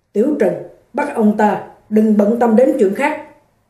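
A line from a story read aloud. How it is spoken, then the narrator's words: Cold command. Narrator (Vietnamese): Thị trưởng Tuần cất giọng lạnh lùng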